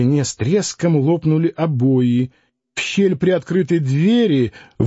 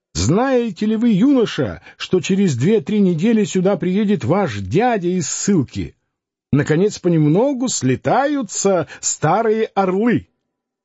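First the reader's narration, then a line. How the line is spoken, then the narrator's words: Joyful shouting. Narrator (Russian): радостно крича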